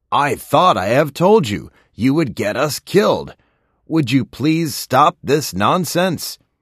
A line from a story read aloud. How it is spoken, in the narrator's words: shouted